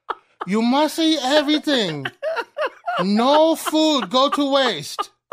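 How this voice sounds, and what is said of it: Imitated broken-English restaurant worker voice. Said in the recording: “our sushi accents together. So my sushi accent... That's how the lady at the sushi place sounds”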